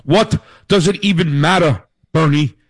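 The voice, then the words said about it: Imitates another person's voice. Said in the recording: “my best Bernie Sanders impression”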